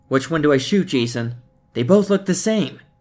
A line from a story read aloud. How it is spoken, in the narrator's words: The two Andrews were now yelling at each other